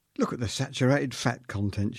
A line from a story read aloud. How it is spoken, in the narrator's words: exclaimed